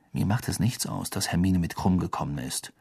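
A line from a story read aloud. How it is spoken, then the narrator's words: Quiet. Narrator (German): sagte Harry leise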